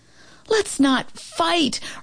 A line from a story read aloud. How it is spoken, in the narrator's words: Romeo pleaded with Turbo